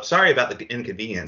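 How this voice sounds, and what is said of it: Quentin Tarantino impression. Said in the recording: “I'm doing it in Tarantino voice.”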